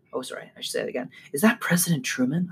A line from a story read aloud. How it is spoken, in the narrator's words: whisper